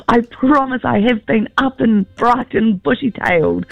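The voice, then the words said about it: Croaky voice with a cold. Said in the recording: “you've got a bit of a morning voice on there ... I've got a bit of a cold.”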